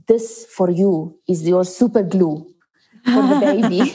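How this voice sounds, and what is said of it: Heavy Lebanese accent, broken English. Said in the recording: “he was speaking in broken English ... a doctor who speaks Lebanese and hardly speaks any English ... in a heavy accent”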